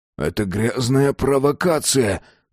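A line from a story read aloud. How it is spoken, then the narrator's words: Forced out. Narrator (Russian): Только и смог он выдавить из себя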